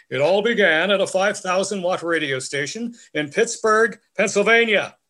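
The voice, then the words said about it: Ted Baxter character imitation. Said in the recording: “my best Ted Baxter imitation”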